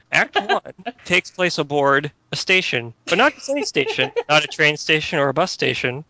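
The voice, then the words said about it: Imitates another person's voice. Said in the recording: “I'll do my Ira Glass voice.”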